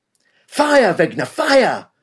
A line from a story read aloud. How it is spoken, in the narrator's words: Lance Corporal Lang was screaming at the teenage German conscript Karl Wegner